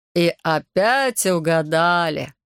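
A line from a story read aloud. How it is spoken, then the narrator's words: Laughing loudly. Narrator (Russian): захохотал Лоре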